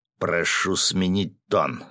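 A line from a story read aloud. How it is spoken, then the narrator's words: Stern. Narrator (Russian): строго сказал Федор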